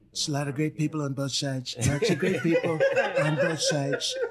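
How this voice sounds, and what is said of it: Imitates another person's voice. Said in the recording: “best fucking impression I've ever heard in my life ... the one he did, Donald Trump ... he did an excellent job”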